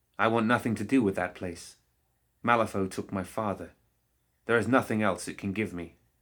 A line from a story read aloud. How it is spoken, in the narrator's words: she said sharply